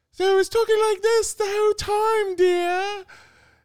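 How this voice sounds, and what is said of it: Mrs. Doubtfire impression. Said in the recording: “she made me do like a Mrs. Doubtfire accent.”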